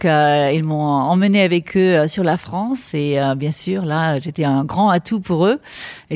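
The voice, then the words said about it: French spoken with English accent. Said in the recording (French): “Vous avez gardé l'accent anglais ... vous avez ramené l'accent avec vous.”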